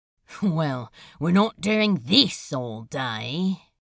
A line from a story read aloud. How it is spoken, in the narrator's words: he grumbled to himself